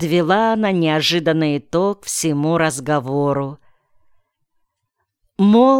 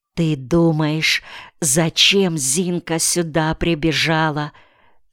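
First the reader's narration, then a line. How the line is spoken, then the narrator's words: Conspiratorial whisper. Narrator (Russian): Приблизившись к самому моему уху, заговорщицки зашептала она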